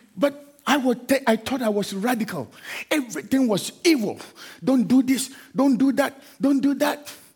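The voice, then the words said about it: African accent. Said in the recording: “I have an African accent.”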